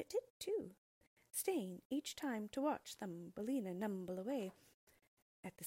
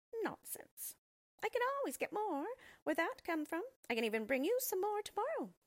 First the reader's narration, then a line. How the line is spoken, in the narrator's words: it chirped